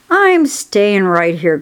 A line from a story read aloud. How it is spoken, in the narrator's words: grumbled the rat